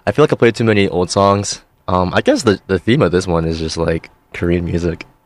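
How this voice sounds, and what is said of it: Weak, sleepy-sounding recovering voice. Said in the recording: “My voice is coming back a little bit. ... I promise I'm not doing the sleepy voice that TikTokers do.”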